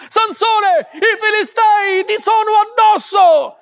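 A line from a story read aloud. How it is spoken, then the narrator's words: Shouting again. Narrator (Italian): gridò di nuovo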